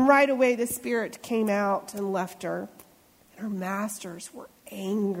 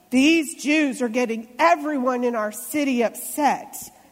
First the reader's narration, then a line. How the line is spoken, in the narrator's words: they shouted